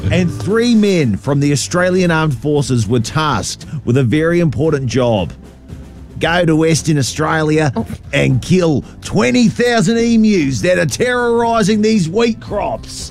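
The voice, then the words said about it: Put-on accent. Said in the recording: “Oh, we've got accents. ... Accent number two.”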